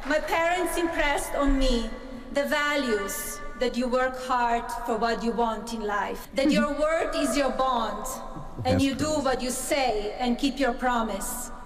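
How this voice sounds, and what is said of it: Speaks English with a foreign accent. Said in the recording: “Melania is the one with the accent.”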